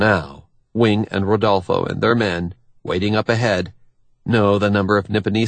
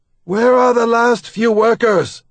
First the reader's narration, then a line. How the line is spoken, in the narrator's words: one of the crew shouts